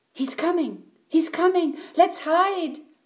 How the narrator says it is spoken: cried Eddie

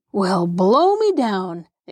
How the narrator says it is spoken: exclaimed Mr

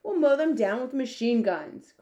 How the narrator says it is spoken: cried the head of the army

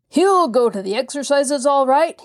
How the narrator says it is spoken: he called back over his shoulder in a great roar

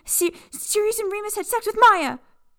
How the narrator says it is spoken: Peter blurted

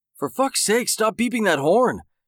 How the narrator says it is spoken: Jake yelled as he ran

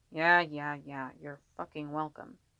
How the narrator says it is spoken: he mumbled under his breath

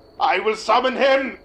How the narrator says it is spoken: he screamed at the camera

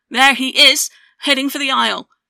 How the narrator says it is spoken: One of them yelled

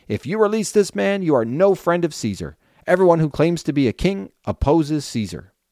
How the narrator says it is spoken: the Jewish leaders shouted out

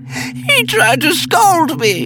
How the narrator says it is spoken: she screamed

